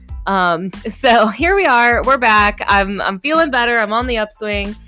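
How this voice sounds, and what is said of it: Voice affected by a cold. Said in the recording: “I kind of had a cold. You might be able to hear it in my voice.”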